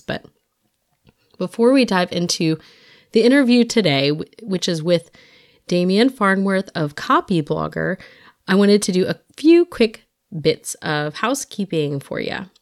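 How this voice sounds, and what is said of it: Slightly raspy, congested voice. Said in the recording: “forgive my voice. I have some kind of, I don't know, congestive thing. I had no voice a few weeks ago, and now I've got one that sounds a little raspy”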